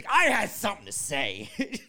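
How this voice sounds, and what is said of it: Slow impression with dragged-out syllables. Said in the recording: “my Roman impression ... he's got the slow and demeanor ... My syllables are dragged out.”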